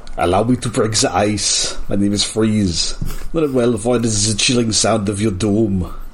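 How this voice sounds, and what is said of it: Arnold Schwarzenegger accent impression. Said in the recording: “the Arnold accent is too easy to slip into”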